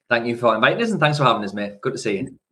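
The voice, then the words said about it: Strong Geordie accent. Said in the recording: “a local Geordie ... definitely got a stronger accent than me”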